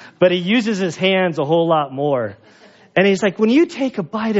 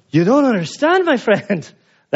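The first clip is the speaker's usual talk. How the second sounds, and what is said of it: Attempted Italian accent sounding Arabic. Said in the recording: “That's my Arabic accent. It's supposed to be Italian... I'm still trying to harness the Italian accent.”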